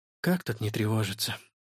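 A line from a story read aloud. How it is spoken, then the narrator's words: Sighing. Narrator (Russian): вздохнула Стелла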